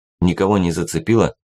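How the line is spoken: Plain. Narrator (Russian): спросил Максим

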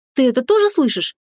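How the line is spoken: Emotional exclamation. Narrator (Russian): воскликнула она в порыве чувств

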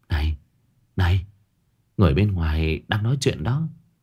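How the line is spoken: Whisper. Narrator (Vietnamese): Tóc Đỏ thì thầm

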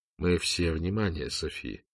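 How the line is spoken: Gentle father. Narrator (Russian): мягко сказал отец Лотар

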